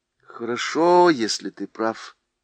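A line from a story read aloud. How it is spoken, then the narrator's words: Sighing. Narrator (Russian): вздохнула Сьюзен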